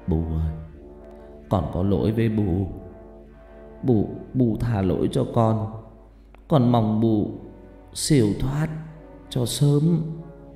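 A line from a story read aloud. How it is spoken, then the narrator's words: Muttered. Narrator (Vietnamese): ông lẩm bẩm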